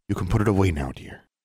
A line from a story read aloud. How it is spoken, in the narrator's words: whispered